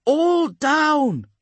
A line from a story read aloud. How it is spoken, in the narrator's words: Bhattacharya shouts back